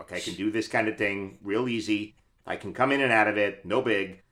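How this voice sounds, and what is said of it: Put-on Brooklyn accent. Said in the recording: “I have a standard Brooklyn that I can do ... I have CSI New York suspect accent. That's my dialect. ... That's so good.”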